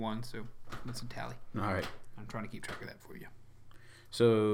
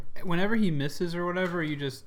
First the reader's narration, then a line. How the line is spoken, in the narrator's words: Wimpoo yells